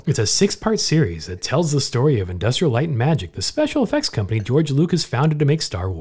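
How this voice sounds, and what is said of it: Mock announcer voice. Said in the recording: “That's my announcer voice.”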